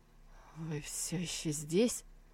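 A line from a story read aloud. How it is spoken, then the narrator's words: Trembling voice. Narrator (Russian): Сусу ответила дрожащим голосом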